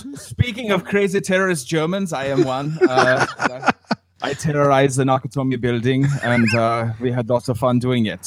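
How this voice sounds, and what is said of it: Put-on German accent. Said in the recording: “I enjoy doing the German accent. ... Oh, yes, that's very good, yeah.”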